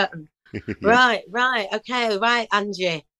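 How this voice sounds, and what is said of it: Deliberately bad Northern English accent. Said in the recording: “sorry, I'm doing a bad Northern accent. You know, whatever the accent is for Skegness”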